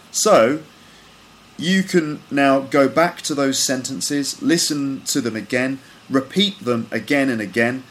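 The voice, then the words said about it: British English accent. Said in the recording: “my perfect British English accent”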